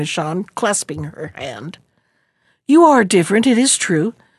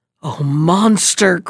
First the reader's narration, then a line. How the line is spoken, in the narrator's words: cried Toupette, bursting into tears